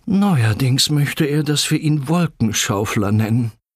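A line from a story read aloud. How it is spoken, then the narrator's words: Groaning. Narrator (German): stöhnte Papa Buddel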